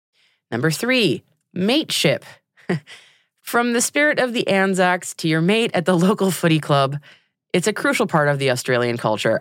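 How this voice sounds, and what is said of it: American accent. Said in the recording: “reading this in an American accent.”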